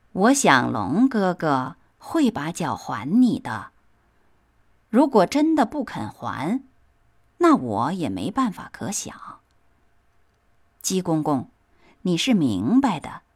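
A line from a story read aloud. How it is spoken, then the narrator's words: Slow drawl. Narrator (Chinese): 蜈蚣慢吞吞地说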